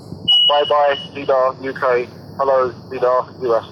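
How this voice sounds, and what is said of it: Robot voice. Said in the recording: “Gregotron ... I've got to do my robot voice”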